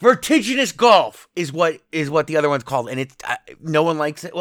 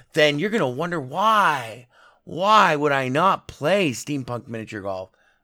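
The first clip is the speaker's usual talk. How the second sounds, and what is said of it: Sarcastic tone. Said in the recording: “I'm being sarcastic”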